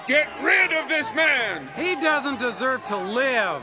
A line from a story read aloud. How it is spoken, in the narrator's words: They kept shouting